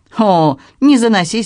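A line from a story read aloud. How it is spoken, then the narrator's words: Cheerful reply. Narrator (Russian): весело отозвался Ламбер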